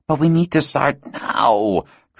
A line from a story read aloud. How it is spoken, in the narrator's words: Christoph groaned, leaning back in his bed